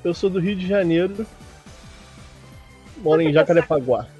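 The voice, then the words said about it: Rio de Janeiro Portuguese accent. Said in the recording (Portuguese): “o sotaque entrega, né? ... O sotaque do Rio de Janeiro é muito, é muito típico, é muito clássico.”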